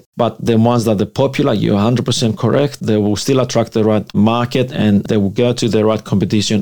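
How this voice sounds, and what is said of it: Greek-accented English. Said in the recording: “that's an interesting accent... is he Italian? Is he French?... I'm from Greece. Greek background.”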